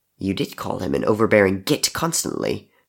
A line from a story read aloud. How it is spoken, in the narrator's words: Crow muttered